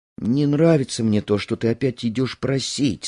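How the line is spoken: Plain. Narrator (Russian): сказала жена

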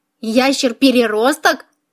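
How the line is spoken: Giggling. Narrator (Russian): хихикнула Лориэль

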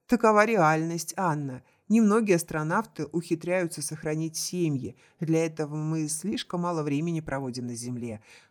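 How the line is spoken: Sigh. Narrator (Russian): вздохнул Вагнер

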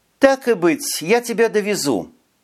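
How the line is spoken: Reluctant resigned sigh. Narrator (Russian): вздохнула девушка, приняв нелегкое для себя решение

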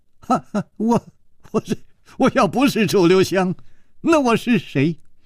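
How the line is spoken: Wry forced laugh. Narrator (Chinese): 楚留香苦笑着说

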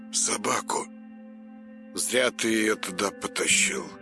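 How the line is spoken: Sighing. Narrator (Russian): вздохнул Большаков

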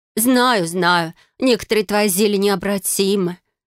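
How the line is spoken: Sighing. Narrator (Russian): вздохнула подруга

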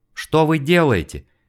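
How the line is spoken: Terrified scream. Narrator (Russian): закричала перепуганная насмерть Ева

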